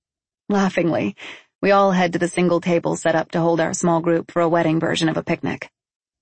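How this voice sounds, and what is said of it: Usual voice. Nothing is said of it.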